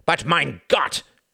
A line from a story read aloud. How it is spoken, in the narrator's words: cried von Ribbentrop